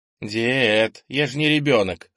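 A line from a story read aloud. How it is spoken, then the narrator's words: Grunt. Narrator (Russian): хмыкнул Кенни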